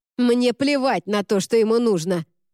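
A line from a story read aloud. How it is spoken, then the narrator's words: Barked. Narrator (Russian): рявкнула Сен-Клер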